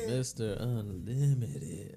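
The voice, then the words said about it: Put-on sexy, sultry voice. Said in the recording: “sexy voice ... that was a sexy. That's a Sierra voice”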